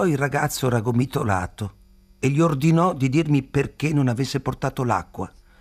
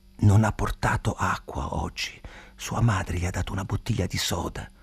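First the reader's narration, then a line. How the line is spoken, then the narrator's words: Whisper in ear. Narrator (Italian): mi sussurrò all'orecchio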